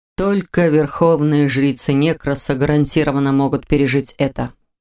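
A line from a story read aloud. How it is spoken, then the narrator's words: Calm explanation. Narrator (Russian): спокойно объяснил он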